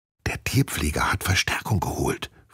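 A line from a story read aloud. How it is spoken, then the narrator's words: Whispered. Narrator (German): flüstert sie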